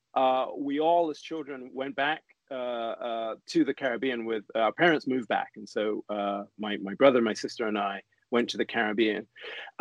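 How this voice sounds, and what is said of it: British accent. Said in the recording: “as you can probably tell from my accent, I'm British.”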